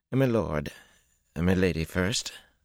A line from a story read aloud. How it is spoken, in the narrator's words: Balwer said in that dry voice